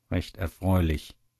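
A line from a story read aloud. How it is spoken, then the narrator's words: Murmured. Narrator (German): murmelt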